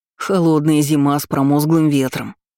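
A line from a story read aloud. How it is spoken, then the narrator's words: Growling. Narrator (Russian): рычал аниморф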